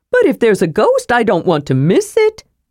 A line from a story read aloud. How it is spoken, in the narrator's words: Tass cried